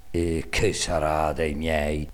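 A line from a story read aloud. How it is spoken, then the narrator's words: Sighing. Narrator (Italian): sospirava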